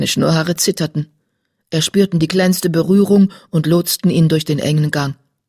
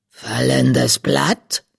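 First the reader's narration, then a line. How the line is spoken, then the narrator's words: Croaking meow. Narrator (German): Ein krächzendes Maunzen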